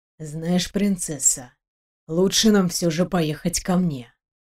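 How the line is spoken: Whispering. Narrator (Russian): прошептал

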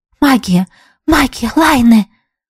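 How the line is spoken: Whispering. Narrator (Russian): прошептала подруга

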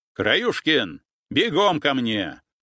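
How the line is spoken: Barked command. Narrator (Russian): рявкнул капитан

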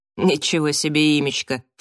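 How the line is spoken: Snorting. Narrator (Russian): фыркнула Келли

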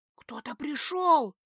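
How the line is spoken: Frightened whisper. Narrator (Russian): страшным шепотом сообщила я

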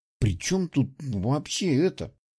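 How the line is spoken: Quiet mutter. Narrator (Russian): тихо пробормотала она

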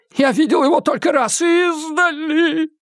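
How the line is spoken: Moaning. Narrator (Russian): простонал Кулпеппер

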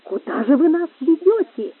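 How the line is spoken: Sudden exclamation. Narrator (Russian): воскликнул вдруг Гонсалес

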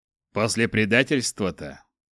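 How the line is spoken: Scoffing snort. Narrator (Russian): хмыкнул Чак

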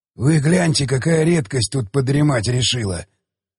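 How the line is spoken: Quiet hoarse voice. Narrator (Russian): проговорил он тихим, хриплым голосом

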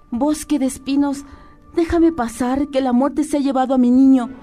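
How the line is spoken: Pleading again. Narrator (Spanish): suplicó de nuevo

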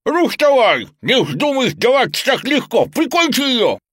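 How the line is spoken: Desperate shouting. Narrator (Russian): Маска отчаянно кричала на своего владельца

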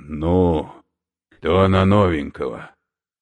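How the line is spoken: Exhaled words. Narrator (Russian): выдохнул

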